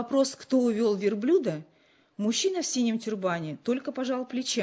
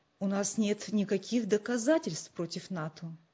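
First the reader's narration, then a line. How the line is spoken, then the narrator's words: Calm objection. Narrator (Russian): спокойно возразил отец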